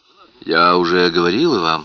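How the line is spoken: Calm reply. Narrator (Russian): спокойно ответила Ноэль

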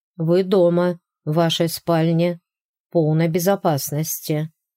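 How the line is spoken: Plain. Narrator (Russian): ответил доктор

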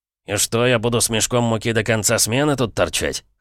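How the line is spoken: Skeptical grunt. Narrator (Russian): хмыкнул страж

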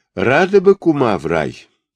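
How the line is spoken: Gloomy. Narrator (Russian): мрачно отозвался Червяченко

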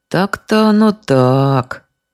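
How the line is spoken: Drawling policeman. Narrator (Russian): протянул участковый

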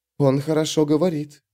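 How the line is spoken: Low-voiced remark. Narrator (Russian): заметила вполголоса

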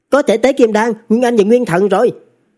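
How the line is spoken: Loud speech. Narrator (Vietnamese): Trần Thực lớn tiếng nói

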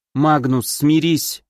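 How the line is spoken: Unexpectedly calm. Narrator (Russian): неожиданно спокойно произнесла Кори

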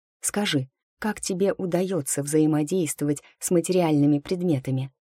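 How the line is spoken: Quiet question. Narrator (Russian): тихонько спросила я

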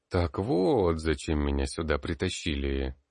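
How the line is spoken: Drawn-out, pensive. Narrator (Russian): глубокомысленно протянул я

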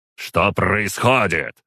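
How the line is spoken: Growl. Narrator (Russian): прорычал

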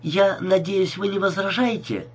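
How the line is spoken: Cheerful woman. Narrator (Russian): весело заговорила она

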